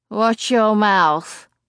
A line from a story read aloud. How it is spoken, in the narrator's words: he slurs